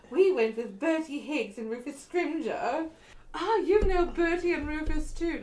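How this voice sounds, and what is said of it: Posh upper-class British accent. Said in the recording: “I'm speaking in the British accent ... you're speaking in, like, rich British ... rich”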